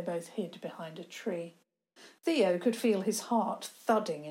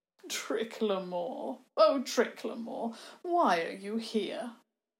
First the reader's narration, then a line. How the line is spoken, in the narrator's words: the monster began to speak in a voice that somehow reminded of bogs and marshes and swamps